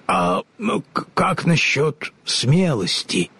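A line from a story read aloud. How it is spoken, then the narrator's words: Timid stammering lion. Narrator (Russian): робко заикнулся лев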